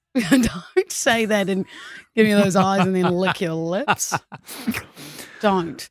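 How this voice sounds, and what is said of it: New Zealand accent. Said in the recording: “I'm from New Zealand, Kia ora, if you didn't tell by the accent.”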